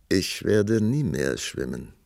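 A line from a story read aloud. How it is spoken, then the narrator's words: Calm reply. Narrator (German): antwortete der Prinz ruhig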